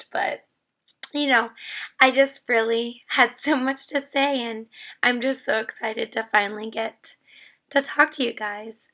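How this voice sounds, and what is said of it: Strained voice, nearly lost. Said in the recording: “my voice is like on the cusp of being lost”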